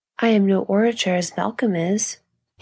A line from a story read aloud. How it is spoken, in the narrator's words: he quoted gaily